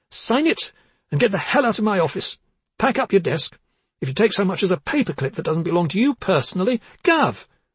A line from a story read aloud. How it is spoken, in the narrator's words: Barbara cried